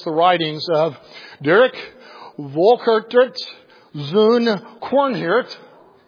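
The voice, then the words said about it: Attempted Dutch accent on name. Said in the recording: “I tried to do my best Dutch accent there”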